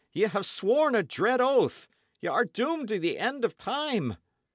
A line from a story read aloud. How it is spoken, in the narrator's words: he moaned